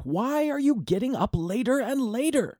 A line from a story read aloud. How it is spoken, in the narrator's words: Videhika shouted